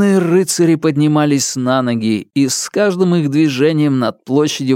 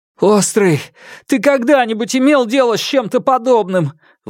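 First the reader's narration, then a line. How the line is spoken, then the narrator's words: Desperate exclamation. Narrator (Russian): в отчаянии воскликнул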